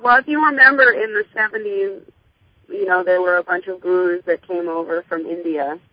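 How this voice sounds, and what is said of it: Slightly hoarse voice. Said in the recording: “your voice was feeling just a little bit hoarse ... your voice was a little under the weather”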